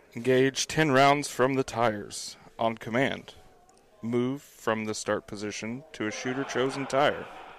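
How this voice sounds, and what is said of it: Mock narrator voice. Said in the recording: “Read it in your best narrator voice.”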